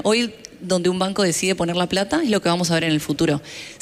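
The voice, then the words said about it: Non-European Spanish accent. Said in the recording (Spanish): “Como pueden ver por mi acento, vengo de otro continente”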